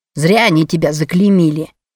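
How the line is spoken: Deliberately loud, spiteful. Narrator (Russian): сказал он нарочито громко, назло матери

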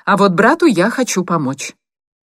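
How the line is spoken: Sharp reply. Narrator (Russian): резко ответила Анита

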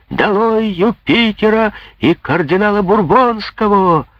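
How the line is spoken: Yelling crowd of schoolboys. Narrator (Russian): вопил Робен Пуспен и прочие школяры

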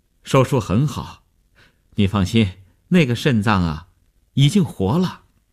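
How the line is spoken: Relieved, smiling. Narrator (Chinese): 医生见他终于发出了声音，放心地笑笑说

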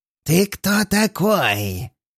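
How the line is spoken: Hoarse voice. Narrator (Russian): хрипит он

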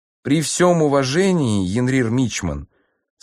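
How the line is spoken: Sad. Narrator (Russian): сказал сержант Аунгу печально

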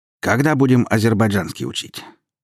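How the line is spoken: Casual, relaxed question. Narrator (Russian): все тем же непринужденным тоном спросил торговец

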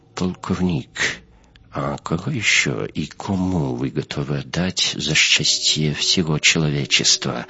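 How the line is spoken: Quiet question. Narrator (Russian): Так же тихо спросил Дюпон

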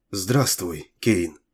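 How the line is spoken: Whisper. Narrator (Russian): прошептала она

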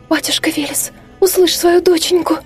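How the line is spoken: Rapid, humble whisper. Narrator (Russian): Шепотом затараторила Аля, смиренно уронив голову на грудь

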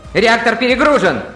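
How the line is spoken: Yell. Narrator (Russian): завопил Син

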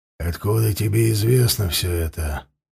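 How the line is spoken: Hollow muffled question. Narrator (Russian): глухим голосом спросил Вальдемар

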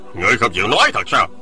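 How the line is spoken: Harsh, gritted voice. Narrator (Vietnamese): Người kia gằn giọng

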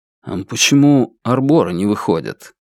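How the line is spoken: Quiet question. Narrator (Russian): Лун негромко спросил утеса

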